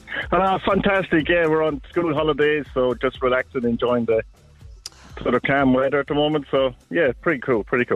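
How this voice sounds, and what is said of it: Irish accent. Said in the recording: “you know I love an Irish accent”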